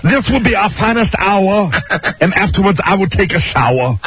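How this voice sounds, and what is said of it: Imitates another person's voice. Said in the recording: “a bad Jesse Jackson impression”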